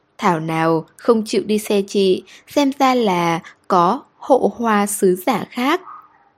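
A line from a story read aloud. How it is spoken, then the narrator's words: Smiling. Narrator (Vietnamese): Trần Khiết Khiết mỉm cười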